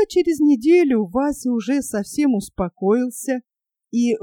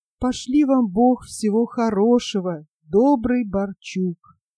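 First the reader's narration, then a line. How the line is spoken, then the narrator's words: Very tender voice. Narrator (Russian): прибавил необыкновенно нежным голосом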